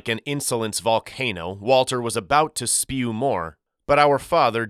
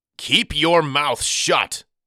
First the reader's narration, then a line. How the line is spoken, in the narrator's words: he roared